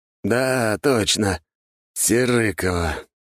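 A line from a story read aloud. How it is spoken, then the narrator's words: Sighing. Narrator (Russian): вздохнул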